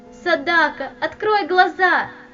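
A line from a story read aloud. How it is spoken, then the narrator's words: Girl shouting. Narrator (Russian): кричала девочка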